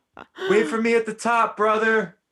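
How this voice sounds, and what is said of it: Imitates another person's voice. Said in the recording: “here's my impression of Aneesa in the final ... this is such a good impersonation”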